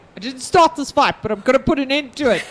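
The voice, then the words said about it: Put-on accent. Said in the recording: “Hopefully not in that accent, though.”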